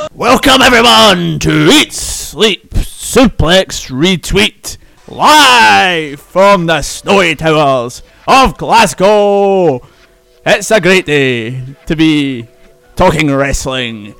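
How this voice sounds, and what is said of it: Wrestling announcer impression, strained throat. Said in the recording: “doing my Vince McMahon and Raw accent, of course ... My throat's killing me after that. I don't know how Vince does it all these years.”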